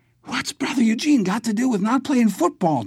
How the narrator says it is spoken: Jerry asked, really gasping now, his lungs threatening to burst

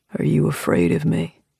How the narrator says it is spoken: he asks, his voice swinging low and deep as the lowest note of a trombone

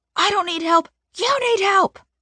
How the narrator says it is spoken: Mom screams

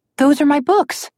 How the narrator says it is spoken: Alex said excitedly, recognizing the books she had dropped into the land of stories

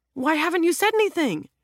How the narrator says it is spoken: Jack blurts out

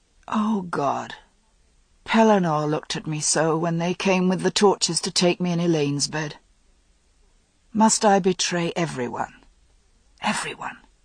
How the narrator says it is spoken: He muttered

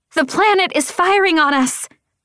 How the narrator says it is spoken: the woman screamed

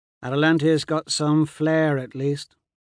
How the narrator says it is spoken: Colloway drawls

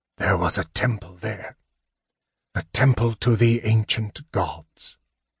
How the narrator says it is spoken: Raistlin whispered

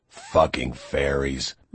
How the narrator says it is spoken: Lore muttered

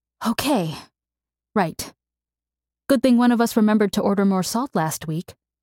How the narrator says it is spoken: Roy gasped

